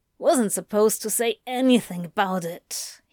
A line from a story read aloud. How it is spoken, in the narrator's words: he grumbled